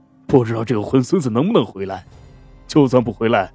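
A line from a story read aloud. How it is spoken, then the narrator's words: Sighing. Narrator (Chinese): 对佩兰叹息着说道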